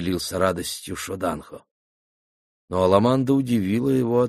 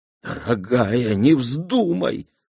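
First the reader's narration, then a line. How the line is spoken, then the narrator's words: Pleading. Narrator (Russian): взмолился Шоданхо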